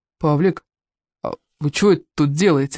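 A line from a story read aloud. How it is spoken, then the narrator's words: Timid opening. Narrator (Russian): робко заводит разговор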